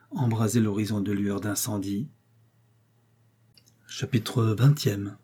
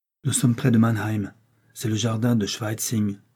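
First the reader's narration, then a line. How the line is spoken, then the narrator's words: Whispered. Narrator (French): me souffla Élise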